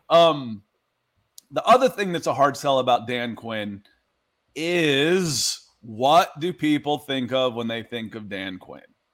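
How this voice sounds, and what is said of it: Tired, worn-out voice. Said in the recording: “My voice is starting to go, too.”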